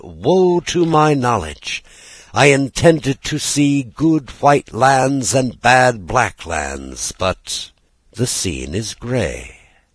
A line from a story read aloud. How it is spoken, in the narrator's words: the prophet, a complacent fat man, arrived at the mountain top, he cried